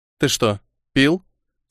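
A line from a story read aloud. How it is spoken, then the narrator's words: Plain question. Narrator (Russian): спросила мама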